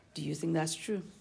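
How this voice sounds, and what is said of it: Quiet, hushed question. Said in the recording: “See, I'm saying it quietly.”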